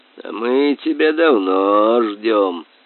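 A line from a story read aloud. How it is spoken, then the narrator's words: Hoarse meowing voice. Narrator (Russian): послышался хриплый мяукающий голос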